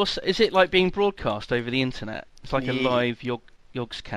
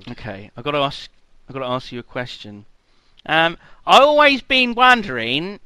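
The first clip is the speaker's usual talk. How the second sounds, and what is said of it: Bad put-on Australian accent. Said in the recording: “terrible accent. Terrible. I apologise... Australian”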